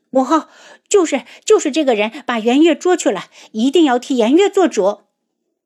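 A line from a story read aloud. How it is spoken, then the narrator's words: Angry. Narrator (Chinese): 东方颜月的声音 愤怒地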